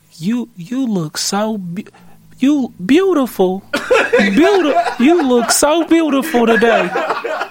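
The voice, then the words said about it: Imitates another person's voice. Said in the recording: “Give your best Mr. Hotspot impression.”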